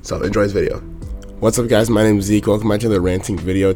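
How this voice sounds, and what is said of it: Monotone, raspy, low-energy voice. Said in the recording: “my voice is very like monotone and raspy. It's because I don't know, I think I have a sore throat ... he's very like low beat ... my voice is a little messed up”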